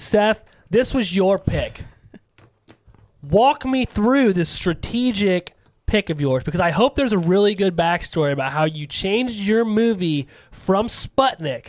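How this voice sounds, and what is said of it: Loud yelling podcast voice. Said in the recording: “Why are you yelling? ... it's my podcast voice”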